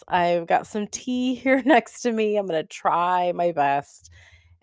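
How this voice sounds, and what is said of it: Sick, strained voice. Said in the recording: “my voice is not the best right now. I'm sick ... the way that I sound today”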